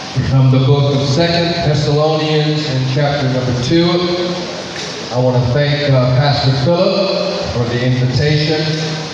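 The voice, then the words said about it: Noticeable accent in English. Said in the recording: “I hope that you understand my accent. You have to listen very carefully. I will try to speak slowly, but as I forget, I do speed up.”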